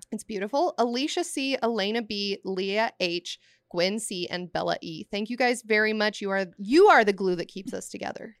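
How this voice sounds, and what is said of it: Scratchy, hoarse voice. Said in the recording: “my voice is still scratchy ... because of the bachelorette party. I still have not recovered.”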